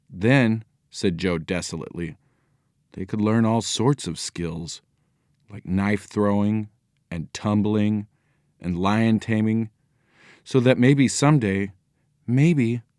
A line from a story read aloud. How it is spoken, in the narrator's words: added Nancy miserably